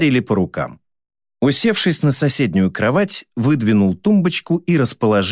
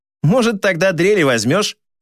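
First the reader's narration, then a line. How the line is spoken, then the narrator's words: Snort. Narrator (Russian): хмыкнул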